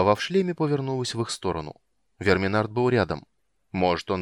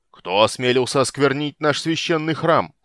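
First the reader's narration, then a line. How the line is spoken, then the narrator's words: Shouting. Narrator (Russian): закричал Арман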